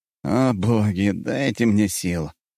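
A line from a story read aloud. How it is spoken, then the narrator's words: Almost growling. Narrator (Russian): Распутин чуть не зарычал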